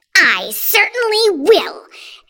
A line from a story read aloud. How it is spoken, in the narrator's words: Aunt Spiker snapped